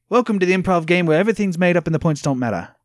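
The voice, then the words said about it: Slight Australian accent. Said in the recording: “That sounded a little Australian.”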